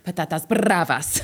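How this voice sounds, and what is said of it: Pretentious put-on Spanish accent. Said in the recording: “My character's really pretentious about her Spanish accent.”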